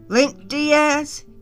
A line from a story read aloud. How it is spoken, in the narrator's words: he yelled